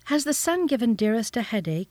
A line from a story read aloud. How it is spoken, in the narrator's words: he inquired anxiously